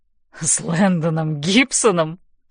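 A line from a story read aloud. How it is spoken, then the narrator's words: Laughing question. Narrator (Russian): спрашивает Зет, смеясь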